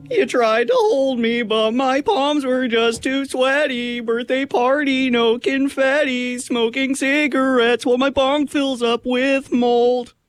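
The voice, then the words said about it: Imitates a band's singing voice. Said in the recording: “That was my impression of a Mom Jeans song”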